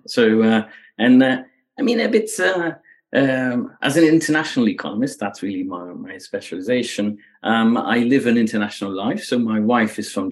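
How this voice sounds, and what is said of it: Slight Belgian accent. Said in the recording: “as I speak, you already hear that there's a bit of an accent... I grew up in Belgium, right? So that's where where the, the accent comes from”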